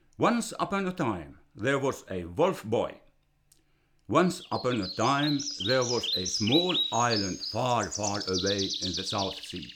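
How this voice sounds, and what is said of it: Finnish-accented English. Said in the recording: “my ethnic Finnish accent”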